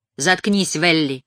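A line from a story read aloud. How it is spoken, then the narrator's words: Curt remark. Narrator (Russian): бросила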